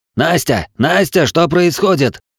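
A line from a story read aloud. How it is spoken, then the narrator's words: Strained yelling into phone. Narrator (Russian): Надрывая глотку, заорал он в трубку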